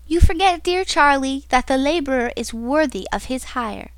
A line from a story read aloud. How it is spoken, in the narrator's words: said brightly